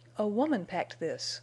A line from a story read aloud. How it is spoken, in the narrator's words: Bess exclaimed